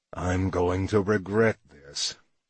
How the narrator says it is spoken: Nash was quiet so long that I'd given up hope of a reply when he murmured

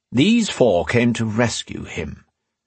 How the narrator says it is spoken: Phelan Parr said in a calm voice

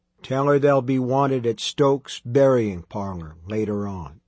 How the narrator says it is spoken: he sighed

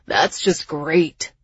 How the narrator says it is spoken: Jax grumbled

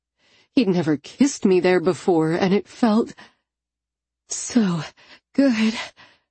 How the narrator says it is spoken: I panted

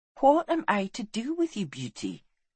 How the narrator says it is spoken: she asked softly

